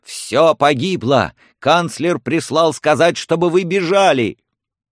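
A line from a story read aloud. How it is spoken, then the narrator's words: Frantic shout. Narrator (Russian): слуга с выпученными обезумевшими глазами и крикнул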